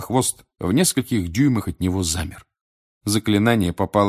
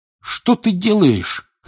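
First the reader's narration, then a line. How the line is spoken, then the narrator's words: Shouting. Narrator (Russian): кричал Седрик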